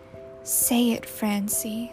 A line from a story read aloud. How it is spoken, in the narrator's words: whispered